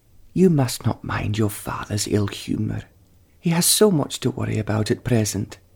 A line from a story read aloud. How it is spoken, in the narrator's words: she said, tenderly